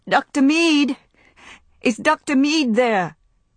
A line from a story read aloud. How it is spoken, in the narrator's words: cried as loudly as she could